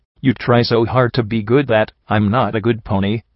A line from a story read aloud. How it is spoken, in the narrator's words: I replied firmly